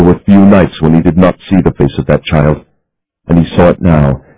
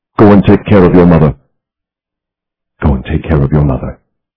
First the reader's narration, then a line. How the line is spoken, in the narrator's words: he had said calmly to the girl